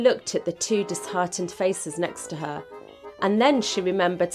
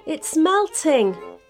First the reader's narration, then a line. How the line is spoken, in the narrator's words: cried Mia, not quite believing her luck